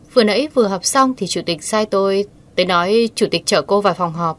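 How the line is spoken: Cold. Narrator (Vietnamese): Đái Kiều Nghiên ... lạnh lùng thốt ra

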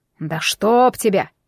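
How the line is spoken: Grumbling. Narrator (Russian): проворчал Кощей

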